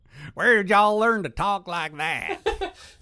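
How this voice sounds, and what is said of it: Nasal put-on Southern accent. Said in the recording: “The nasally... He was the nasally Ferengi that ends up on the floor... he talks like this, but with a southern accent... are you from the deep south of Ferenginar?”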